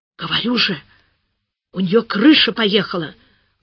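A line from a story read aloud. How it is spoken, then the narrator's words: Loud whisper. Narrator (Russian): громко зашептала Маруся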